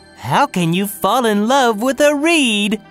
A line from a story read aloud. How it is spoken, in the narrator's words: They laughed